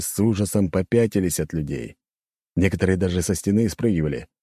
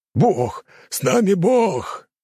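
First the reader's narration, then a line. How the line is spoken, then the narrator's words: Warriors shouting. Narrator (Russian): закричали воины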